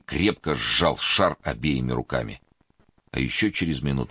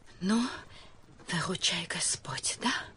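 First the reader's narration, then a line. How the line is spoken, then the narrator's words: Whisper. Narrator (Russian): шепнула Эмилия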